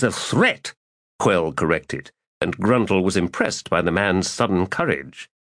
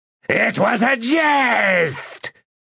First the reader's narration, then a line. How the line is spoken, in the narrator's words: the Segula shouted